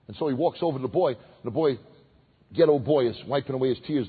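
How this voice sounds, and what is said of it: Brooklyn accent. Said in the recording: “why don't you lose your Brooklyn accent?”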